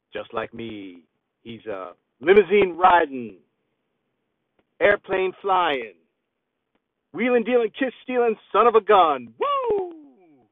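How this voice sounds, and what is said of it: Poor celebrity impression. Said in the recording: “my very horrible celebrity impression”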